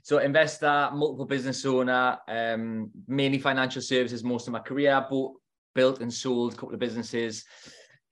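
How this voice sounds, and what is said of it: Northeast English accent. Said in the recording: “from the Northeast, if you can't tell by my accent.”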